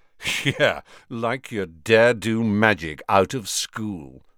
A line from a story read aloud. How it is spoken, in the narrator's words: sneered Malfoy